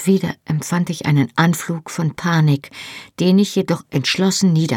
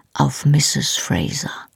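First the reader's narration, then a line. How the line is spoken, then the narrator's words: Quiet speech. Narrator (German): sagte leise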